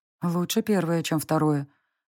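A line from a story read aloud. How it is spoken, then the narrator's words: Sighed. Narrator (Russian): вздохнула я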